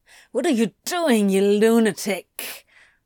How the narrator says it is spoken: Antony growled

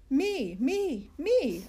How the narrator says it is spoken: I shouted, because I have four excellent thankfuls

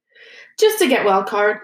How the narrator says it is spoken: said Hermione hastily

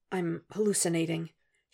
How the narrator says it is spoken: he whispers again

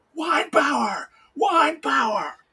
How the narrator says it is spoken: Tim starts screaming

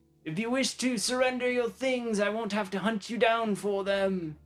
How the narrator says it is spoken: he yells to the group

